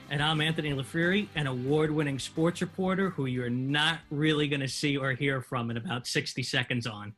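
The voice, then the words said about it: New York Italian accent. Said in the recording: “New York Italian accent”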